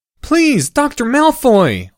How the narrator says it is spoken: whined Harry Potter

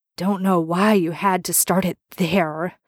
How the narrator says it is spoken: Dean mutters

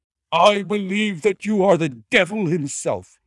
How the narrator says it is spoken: cried

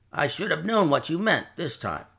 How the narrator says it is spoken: muttered Jerry

